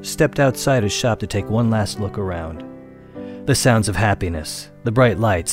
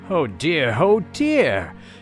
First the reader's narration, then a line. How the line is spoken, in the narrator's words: exclaimed Papa Panov